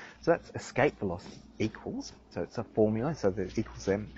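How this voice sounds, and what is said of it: Usual voice. Nothing is said of it.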